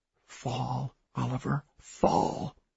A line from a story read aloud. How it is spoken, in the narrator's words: whispered